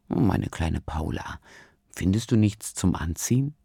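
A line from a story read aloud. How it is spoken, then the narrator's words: Soft gentle rumble. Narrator (German): sanft brummt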